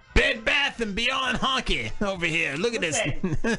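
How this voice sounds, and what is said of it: Yelling. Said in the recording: “you're yelling at me? Really?”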